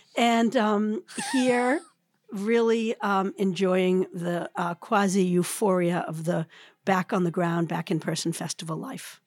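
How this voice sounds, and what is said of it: Hoarser voice than usual. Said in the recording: “sounding hoarser than usual”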